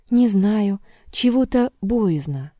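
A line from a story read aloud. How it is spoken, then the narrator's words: Timid. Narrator (Russian): робко говорил Егорка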